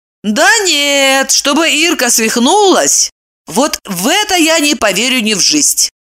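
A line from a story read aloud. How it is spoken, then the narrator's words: Exclaimed. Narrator (Russian): Воскликнула Ева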